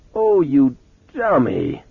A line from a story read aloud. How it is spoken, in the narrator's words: she moaned